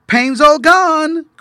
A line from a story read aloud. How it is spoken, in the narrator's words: cried Hepzibiah